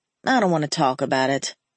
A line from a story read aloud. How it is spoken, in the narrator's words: I mumbled